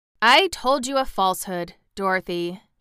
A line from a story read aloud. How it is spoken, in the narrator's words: he said